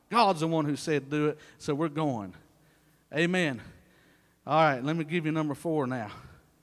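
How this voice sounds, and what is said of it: Breathless, winded preaching voice. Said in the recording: “I'm about out of breath.”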